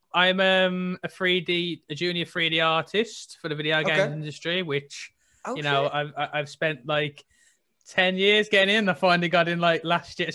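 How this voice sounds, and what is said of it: Strong Birmingham-area English accent. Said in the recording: “I'm originally from a place called Tipton... It's near Birmingham. I think that's where my accent's quite strong... you're by Birmingham, aren't you?”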